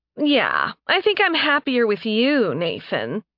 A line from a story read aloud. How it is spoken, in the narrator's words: Mora said, sneering